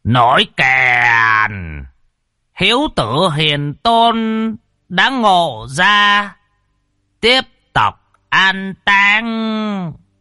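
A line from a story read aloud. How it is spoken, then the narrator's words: Loud ceremonial call. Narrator (Vietnamese): vị chủ tế thong thả, gào lên kêu to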